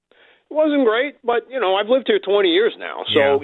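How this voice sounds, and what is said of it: Long Island New York accent. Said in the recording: “What part of New York are you from? ... I'm from Long Island originally. ... The accent? ... the dead giveaway”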